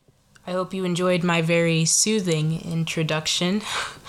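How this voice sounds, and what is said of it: Flat monotone voice. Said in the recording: “my voice is very monotone, and there really is nothing I can do about it”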